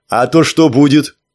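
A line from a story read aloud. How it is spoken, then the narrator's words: Snapping back. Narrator (Russian): огрызнулся Леха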